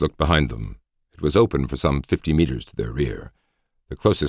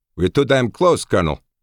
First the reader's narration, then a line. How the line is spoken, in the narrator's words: said Dominguez firmly